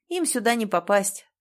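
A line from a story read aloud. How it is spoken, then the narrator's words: Calm explanation. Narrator (Russian): спокойно пояснил он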